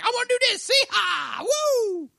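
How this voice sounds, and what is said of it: Put-on Texan accent. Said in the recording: “He's secretly a Texan? ... With that accent specifically.”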